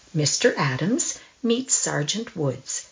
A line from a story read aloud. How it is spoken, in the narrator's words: said the nurse calmly